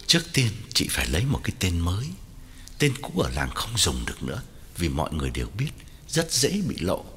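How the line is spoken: Lowered voice. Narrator (Vietnamese): Quảng hạ giọng bảo Hậu

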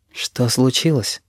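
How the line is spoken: Startlingly soft question. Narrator (Russian): спрашиваю я, так мягко, что сам пугаюсь своего голоса

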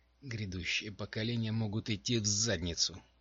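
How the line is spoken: Quiet, ashamed. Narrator (Russian): ответила Дженси, но произнесла это тихо, явно стыдясь своей вспышки

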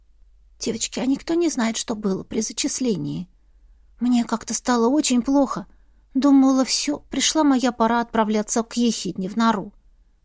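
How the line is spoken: Whisper. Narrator (Russian): прошептала Эрма

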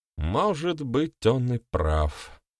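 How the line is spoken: Sad druid. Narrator (Russian): грустно произнес друид

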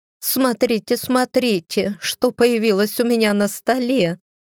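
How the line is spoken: Exclamation. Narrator (Russian): воскликнула Стеф

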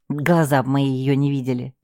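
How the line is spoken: Good-natured snort. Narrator (Russian): добродушно фыркнул Артем

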